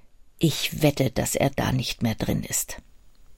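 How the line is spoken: Whispered. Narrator (German): wisperte einer von ihnen

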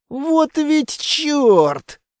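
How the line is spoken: Breathless hiss. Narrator (Russian): тяжело дыша прошипел я

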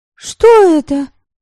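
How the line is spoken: Shouted. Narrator (Russian): крикнула Девляна

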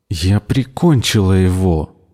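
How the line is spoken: Through clenched teeth. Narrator (Russian): процедила Никки сквозь стиснутые зубы

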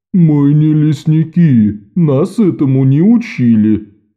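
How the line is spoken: Loud complaint. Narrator (Russian): пожаловался он Тревору достаточно громко, чтобы услышали остальные

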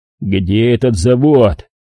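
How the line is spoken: Menacing growl. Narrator (Russian): угрожающе прорычал Болон

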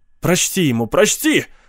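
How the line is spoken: Shouting. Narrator (Russian): закричал Пит Клейн

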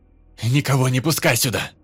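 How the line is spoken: Shouting. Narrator (Russian): Крикнул он Лёхе

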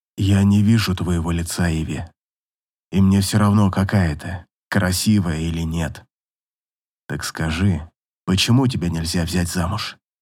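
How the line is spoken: Child's loud whisper. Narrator (Russian): Девочка громким шепотом спросила

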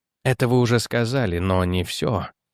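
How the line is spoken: Quiet remark. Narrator (Russian): тихо заметил

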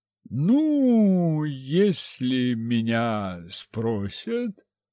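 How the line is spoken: Sly drawl. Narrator (Russian): хитрый Степан протянул

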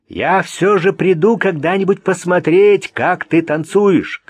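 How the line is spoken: Calling out after someone. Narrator (Russian): крикнул Вик ей вслед

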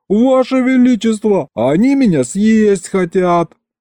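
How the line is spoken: Terrified yelling. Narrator (Russian): я оглянулся на выстроившихся в ряд улыбающихся каннибалов и завопил

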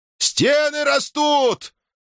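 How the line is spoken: Sudden wild yell. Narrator (Russian): Вдруг заорал диким голосом Хар-Похаррада

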